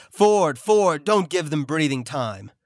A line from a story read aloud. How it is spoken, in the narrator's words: Somebody yelled